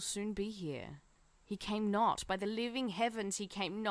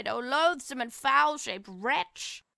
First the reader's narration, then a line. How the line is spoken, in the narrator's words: A shriek rose from Juliet's lips